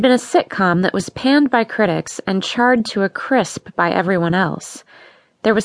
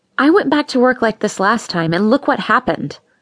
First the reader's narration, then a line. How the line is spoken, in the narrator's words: snapped